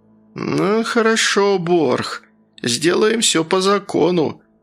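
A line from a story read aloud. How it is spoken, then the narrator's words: Through gritted teeth. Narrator (Russian): староста сквозь зубы процедил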